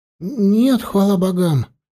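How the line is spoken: Frightened. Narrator (Russian): испуганно отозвался Хельми

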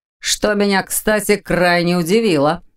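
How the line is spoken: Snorting. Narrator (Russian): хмыкнул Ваня

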